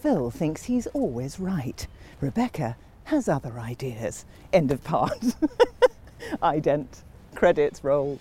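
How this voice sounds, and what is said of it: Dramatic TV voiceover narrator voice. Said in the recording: “my voiceover voice ... do your voiceover voice”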